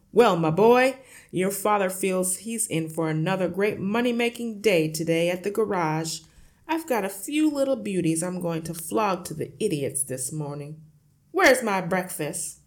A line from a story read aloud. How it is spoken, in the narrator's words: shouted